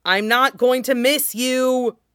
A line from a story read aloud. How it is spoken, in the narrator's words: Yadomir shouts at his retreating back